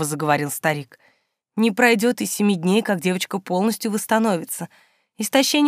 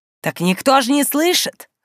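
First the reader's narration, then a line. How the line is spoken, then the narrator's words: Smirking grunt. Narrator (Russian): хмыкнул демон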